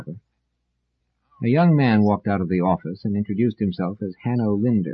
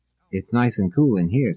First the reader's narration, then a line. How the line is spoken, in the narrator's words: said Selden